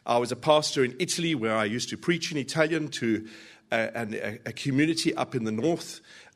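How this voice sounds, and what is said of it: South African accent. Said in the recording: “South Africa, you probably detect the accent.”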